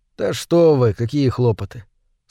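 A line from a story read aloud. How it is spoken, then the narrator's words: Calm objection. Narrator (Russian): спокойно возразил Мур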